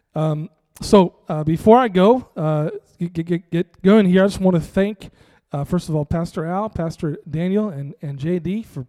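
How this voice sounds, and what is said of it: Strained, partly lost voice. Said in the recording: “My voice is a little ... lose our voice worshiping God ... excuse me coughing”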